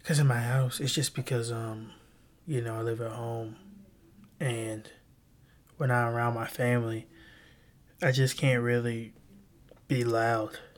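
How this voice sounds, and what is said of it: Whispering, quiet voice. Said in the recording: “My friends tell me I whisper ... I do whisper on this though”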